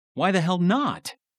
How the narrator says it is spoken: Taylor shouted

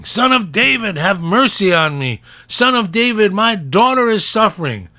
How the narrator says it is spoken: she kept on screaming

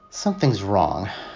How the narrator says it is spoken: I muttered

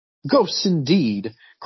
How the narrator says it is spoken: cried the amiable Skegg

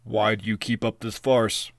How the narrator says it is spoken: rumbled Kumbanagash

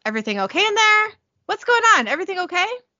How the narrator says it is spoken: He yells

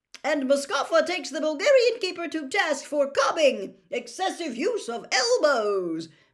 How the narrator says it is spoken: Bagman informed the roaring spectators

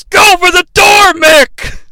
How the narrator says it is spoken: JR yells

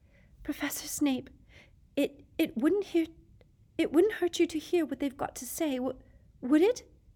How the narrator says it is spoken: Hermione said in a very breathless voice

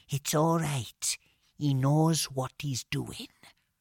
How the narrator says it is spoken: said very quietly

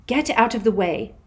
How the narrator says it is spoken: said Hermione sharply

